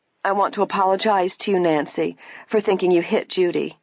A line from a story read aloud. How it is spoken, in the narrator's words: the woman said